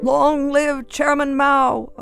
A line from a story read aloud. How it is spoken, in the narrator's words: a voice finally cried out